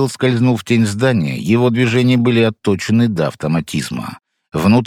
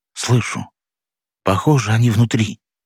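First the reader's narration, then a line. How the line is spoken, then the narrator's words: Quiet reply. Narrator (Russian): так же тихо ответил Станислав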